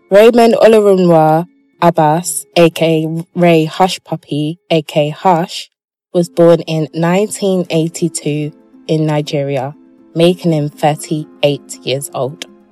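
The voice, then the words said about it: English accent. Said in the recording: “my accent is just too brothelized. Yeah, basically it's too English.”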